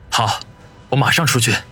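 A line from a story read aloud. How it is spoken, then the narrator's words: Slightly hoarse. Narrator (Chinese): 李先生声音略显嘶哑的说道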